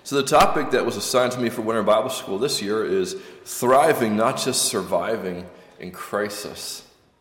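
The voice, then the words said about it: Slightly scratchy voice. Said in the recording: “my voice is a bit scratchy this evening”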